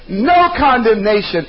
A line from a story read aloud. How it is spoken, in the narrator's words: shouted out and screamed it in an intensified, amplified voice, said